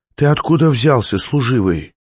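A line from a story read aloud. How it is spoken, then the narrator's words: Hoarse voice. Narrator (Russian): хрипло сказала она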